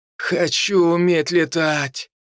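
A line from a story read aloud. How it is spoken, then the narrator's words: Dreamy sigh. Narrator (Russian): Мор мечтательно вздохнул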